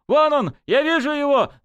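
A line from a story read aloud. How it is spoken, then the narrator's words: Young soldier yelling. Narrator (Russian): завопил наблюдательный солдатик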